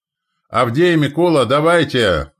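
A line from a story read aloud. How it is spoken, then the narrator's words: Shouted. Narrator (Russian): крикнул он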